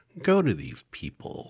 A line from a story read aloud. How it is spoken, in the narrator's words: said the witch